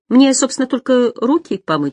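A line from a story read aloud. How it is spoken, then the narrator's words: Cheerful. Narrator (Russian): сказала я бодро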